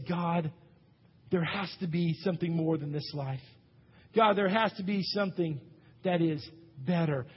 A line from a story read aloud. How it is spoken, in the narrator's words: sigh and we say